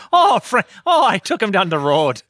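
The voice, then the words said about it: Attempted Minnesotan accent drifting Irish. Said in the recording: “pulling off a Minnesotan accent ... you round that O a little bit more ... But now I'm starting to go Irish ... No, it's not quite that ... it's more spread as and more O's”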